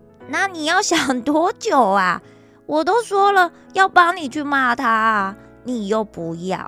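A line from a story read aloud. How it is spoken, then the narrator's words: Laughing. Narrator (Chinese): 沙朗笑着说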